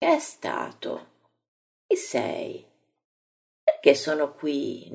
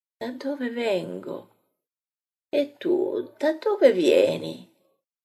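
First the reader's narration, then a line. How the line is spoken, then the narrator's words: Tired, pale, sickly. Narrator (Italian): Parla con voce stanca e bianca di malato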